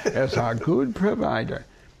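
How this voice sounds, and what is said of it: Put-on Yiddish accent. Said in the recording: “that's the best I can do with a Yiddish accent”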